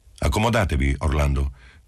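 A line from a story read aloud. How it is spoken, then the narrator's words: Official tone. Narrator (Italian): disse Marcello in tono ufficiale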